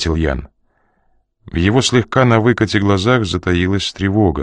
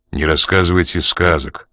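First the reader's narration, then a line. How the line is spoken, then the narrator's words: Dry objection. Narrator (Russian): сухо возразил Коридон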